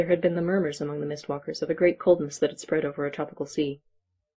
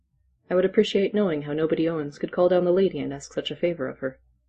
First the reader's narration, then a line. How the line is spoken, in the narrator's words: said Silas dryly